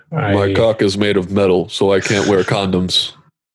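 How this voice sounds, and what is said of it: Booming robot character voice. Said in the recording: “How do you even do that fucking voice? Optimus's voice is like, you have to boom it through a through something.”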